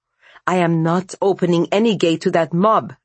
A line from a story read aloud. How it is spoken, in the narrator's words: Vasya snapped